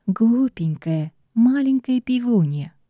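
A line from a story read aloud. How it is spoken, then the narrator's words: Tender whisper in ear. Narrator (Russian): ласково зашептала ведьма мне на ухо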